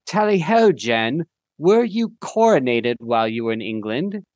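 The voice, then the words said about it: Put-on British accent. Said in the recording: “I'm doing this in a British accent.”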